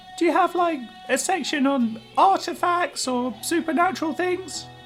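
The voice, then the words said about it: English accent. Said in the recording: “The English accent replied.”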